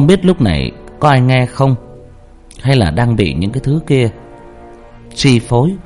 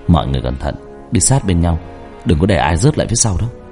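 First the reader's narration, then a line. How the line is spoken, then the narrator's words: Soft cautious voice. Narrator (Vietnamese): Ba tôi khẽ nói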